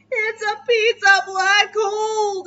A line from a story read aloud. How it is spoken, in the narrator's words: Dad shouted